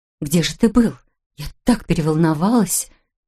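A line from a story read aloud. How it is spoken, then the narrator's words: Trembling voice. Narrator (Russian): Таким дрожащим голосом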